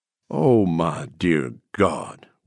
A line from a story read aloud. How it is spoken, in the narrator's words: Weems groaned